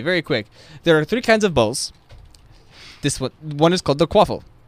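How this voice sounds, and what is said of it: Put-on accent of a movie character. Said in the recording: “We'll do what Oliver Wood does in the movie... I'm gonna stop using the accent.”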